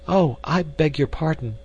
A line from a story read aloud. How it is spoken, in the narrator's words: she exclaimed